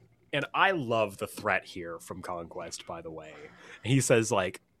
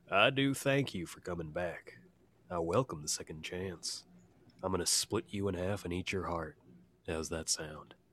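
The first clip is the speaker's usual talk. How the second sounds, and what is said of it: Put-on Southern accent. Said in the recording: “God, I got to think about a Southern accent now ... that was kind of like Dark McCree. Yeah. That was good.”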